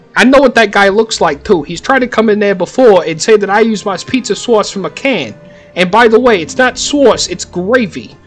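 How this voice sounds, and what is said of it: Put-on Brooklyn accent. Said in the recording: “The Brooklyn accent ... it's hard to keep the Brooklyn accent PG ... it's really hard to do the Brooklyn accent without using curse words”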